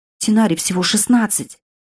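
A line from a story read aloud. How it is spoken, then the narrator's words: Grim hiss. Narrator (Russian): прошипела мрачно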